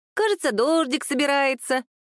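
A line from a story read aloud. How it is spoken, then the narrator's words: Squeaky piglet-voice drawl. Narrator (Russian): тоненьким голосом пятачка протянул Михаил Геннадьевич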